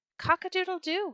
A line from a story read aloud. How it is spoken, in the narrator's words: he cried